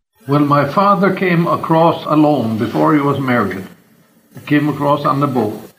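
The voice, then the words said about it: Norwegian-accented English. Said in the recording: “with his Norwegian accent”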